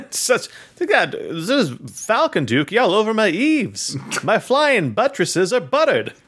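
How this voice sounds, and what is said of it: Put-on transatlantic accent. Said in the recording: “I like the idea of a transatlantic accent saying the words duking up the eaves.”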